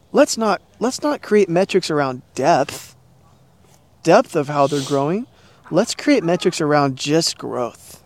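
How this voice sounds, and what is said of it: Sarcastic, satirical delivery. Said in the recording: “And I'm being sarcastic, and I'm being a little satirical”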